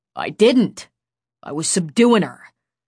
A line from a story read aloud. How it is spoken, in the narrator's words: the guy growled